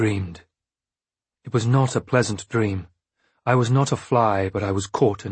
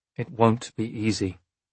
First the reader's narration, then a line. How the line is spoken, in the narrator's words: the man conceded with a sigh